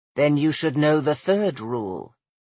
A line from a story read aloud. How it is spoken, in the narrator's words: he said softly in her mind